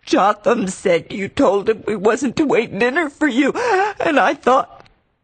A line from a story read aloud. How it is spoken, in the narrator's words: She sobbed out